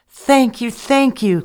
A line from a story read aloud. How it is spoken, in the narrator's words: cried Abraham